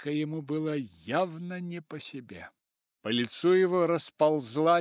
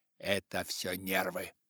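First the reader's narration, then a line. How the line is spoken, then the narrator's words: Loud stage whisper. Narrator (Russian): Миссис Маккиска прошептала так, чтобы всем было слышно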